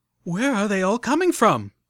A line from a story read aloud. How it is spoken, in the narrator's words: cried out Velvet Remedy as 5 more sprite bots rounded the doorway and started vaporizing our barricade of tables and refrigerators